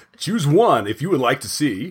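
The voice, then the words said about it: Automated movie phone-line voice. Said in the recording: “movie phone voice”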